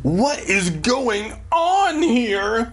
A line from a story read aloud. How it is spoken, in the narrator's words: Dad cried